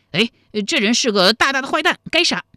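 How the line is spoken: Loud shout. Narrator (Chinese): 人群中的一个邋遢道士，还大叫了一声

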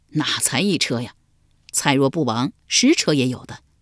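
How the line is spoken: Knowing laugh. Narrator (Chinese): 蔡使会意，笑道

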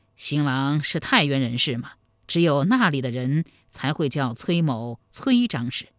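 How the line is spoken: Chuckling. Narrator (Chinese): 崔神庆嘿嘿一笑说

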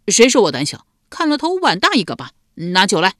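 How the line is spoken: Angry, tipsy. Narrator (Chinese): 赖毛被激怒了，瞪着一双微醉的小眼道

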